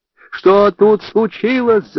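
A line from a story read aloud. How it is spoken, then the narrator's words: Shouted. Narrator (Russian): закричала она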